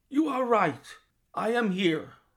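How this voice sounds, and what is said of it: Strange foreign-sounding voice. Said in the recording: “in a strange foreign voice”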